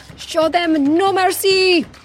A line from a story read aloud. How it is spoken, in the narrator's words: He shouted, then gasped